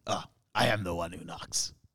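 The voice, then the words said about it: Impression of Walter White. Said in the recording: “Can you do a Walter White impression right now?”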